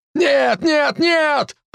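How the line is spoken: Shout. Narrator (Russian): прокричал

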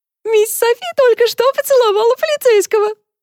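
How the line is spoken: Joyful shout. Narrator (Russian): радостно выкрикнул Генри

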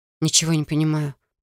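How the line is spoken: Muttered. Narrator (Russian): пробормотала я

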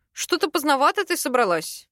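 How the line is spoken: Snorting hum. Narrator (Russian): хмыкнул

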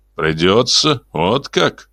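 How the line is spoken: Contemptuous snort. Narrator (Russian): презрительно фыркнул Харман

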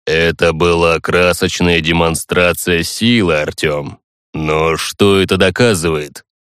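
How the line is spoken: Calm signature voice. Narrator (Russian): Барон задал вопрос таким уже спокойно фирменным голосом

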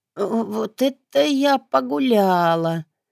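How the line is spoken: Broken hoarse wheeze. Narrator (Russian): просипела надломленным хриплым голосом

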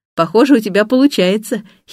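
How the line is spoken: Giggle. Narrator (Russian): хихикаю я

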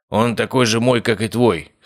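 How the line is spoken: Snorting. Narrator (Russian): хмыкнул Обухов

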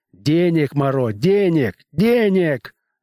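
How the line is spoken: Shouting at him. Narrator (Russian): закричал на него

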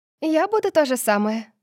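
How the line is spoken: Joyful. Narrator (Russian): радостно сказала София

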